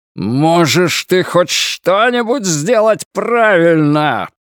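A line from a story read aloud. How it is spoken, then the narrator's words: Roaring. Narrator (Russian): проревел Флэг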